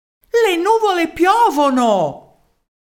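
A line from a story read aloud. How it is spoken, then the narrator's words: Loud yell. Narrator (Italian): uno dei cittadini di Senz'Acqua urlò ad alta voce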